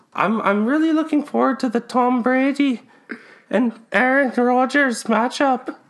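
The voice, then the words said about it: Old woman character with Irish accent. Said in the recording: “That's quite the accent you have there, Doris... When did you come over to Canada?”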